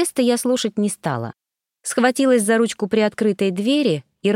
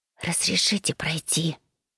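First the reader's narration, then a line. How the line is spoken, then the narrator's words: Barely audible whisper. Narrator (Russian): прошептал еле слышно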